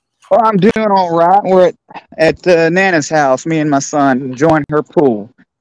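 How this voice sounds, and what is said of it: Southern US accent. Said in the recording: “You're going to love this accent... He speaks cornbread like me.”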